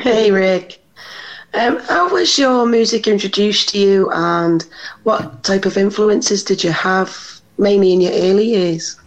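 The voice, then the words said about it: British (UK) accent. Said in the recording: “where is your accent? ... UK ... you threw me off with your accent”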